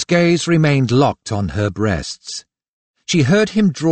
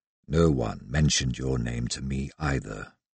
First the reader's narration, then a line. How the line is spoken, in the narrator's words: His voice had deepened and grown rougher when he said